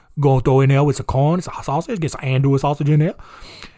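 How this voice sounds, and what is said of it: Put-on Cajun accent. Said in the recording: “Oh, I love my Cajun accent. Cajun accent's real good.”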